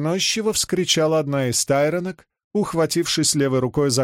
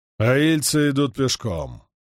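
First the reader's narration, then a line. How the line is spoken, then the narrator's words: Growl, stifled yawn. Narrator (Russian): прорычал Перин и подавил зевок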